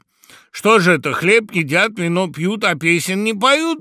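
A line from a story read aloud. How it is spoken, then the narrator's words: Sudden shout, raven. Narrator (Russian): крикнул вдруг ворон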